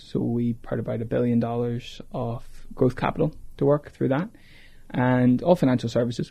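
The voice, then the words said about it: Irish accent. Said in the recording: “grew up in Ireland, can't tell by the accent”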